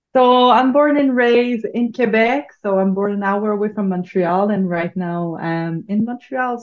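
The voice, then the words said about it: French Quebecois accent. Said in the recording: “that's the French accent you are hearing right now.”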